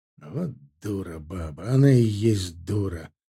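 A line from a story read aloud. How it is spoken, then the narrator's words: Muttered. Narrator (Russian): пробормотал Герман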